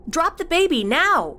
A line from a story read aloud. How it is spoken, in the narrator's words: Cassie yelled out again